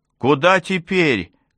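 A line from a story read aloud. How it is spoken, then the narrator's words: Shout. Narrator (Russian): крикнула Джейми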